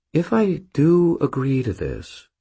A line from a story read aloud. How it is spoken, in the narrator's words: she said, her tone cautious